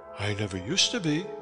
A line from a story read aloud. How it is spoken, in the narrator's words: she answered